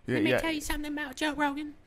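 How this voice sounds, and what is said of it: Poor imitation of another person's voice. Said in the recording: “That's not good. That's a bad impression.”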